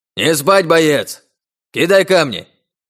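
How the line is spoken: Very loud bird-like shout. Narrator (Russian): Крик пернатого прозвучал столь громко

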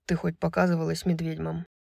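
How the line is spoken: Hoarse question. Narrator (Russian): хрипло спросил Хант

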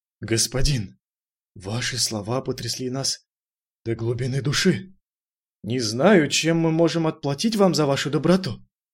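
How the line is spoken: Deep sigh, hollow laugh. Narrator (Russian): Глубоко вздохнув, он с опустошенным смехом сказал

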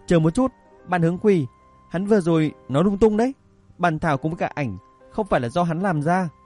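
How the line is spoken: Frightened hasty shout. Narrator (Vietnamese): Sinh viên lùn bị dọa, vội vàng hét lớn

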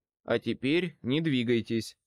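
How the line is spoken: Plain. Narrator (Russian): сказал я ему

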